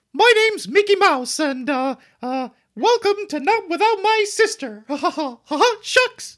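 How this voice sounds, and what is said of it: Mickey Mouse cartoon voice. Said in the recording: “do a funny voice ... No, do your Mickey Mouse. That's good.”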